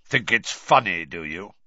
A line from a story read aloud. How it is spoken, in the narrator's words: he growled